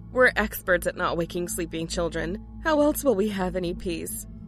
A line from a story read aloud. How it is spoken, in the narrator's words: Mary Beth laughed